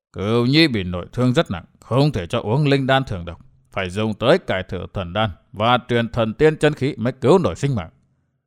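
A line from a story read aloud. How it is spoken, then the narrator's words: Muttering. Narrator (Vietnamese): Vạn Tà Thạch Thương Ngân lẩm bẩm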